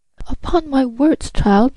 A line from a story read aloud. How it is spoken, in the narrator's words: exclaimed the angry Marquise